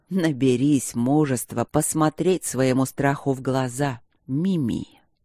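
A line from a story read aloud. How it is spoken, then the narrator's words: Strange whistling, hissing voice. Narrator (Russian): произнесенное странным, не то свистящим, не то шипящим голосом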